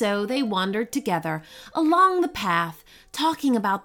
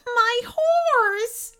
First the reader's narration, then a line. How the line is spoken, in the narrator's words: cried